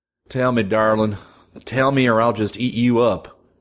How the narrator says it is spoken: In mock perplexity, growled

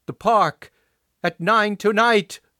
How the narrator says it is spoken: yelled

